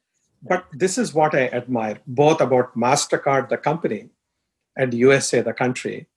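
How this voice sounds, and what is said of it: Strong Indian English accent. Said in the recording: “I have a strong Indian accent.”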